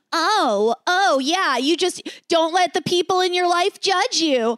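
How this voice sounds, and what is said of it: Sarcastic, judgmental voice. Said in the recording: “my own sarcastic voice... That's not your voice... in a warped voice... a voice that's not accepting what the words say... the judgmental voice”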